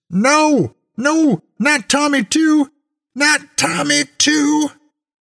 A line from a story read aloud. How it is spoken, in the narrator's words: I heard her screaming out the window